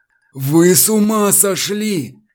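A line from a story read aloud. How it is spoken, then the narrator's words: Hissing. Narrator (Russian): зашипел на него Намазов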